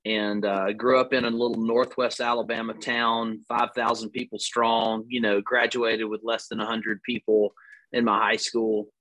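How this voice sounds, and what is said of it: Southern US accent, long vowels. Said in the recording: “You can tell by the long vowel sounds in my accent that I'm not from anywhere else besides the South”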